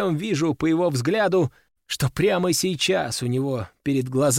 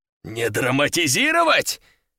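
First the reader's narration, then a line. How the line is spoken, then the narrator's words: Roaring again. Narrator (Russian): Опять взревел он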